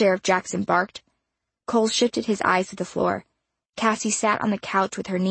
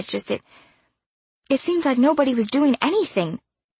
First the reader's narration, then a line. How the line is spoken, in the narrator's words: Poe added, a little more timidly